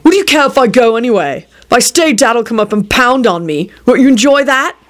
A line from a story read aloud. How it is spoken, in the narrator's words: Jamie barked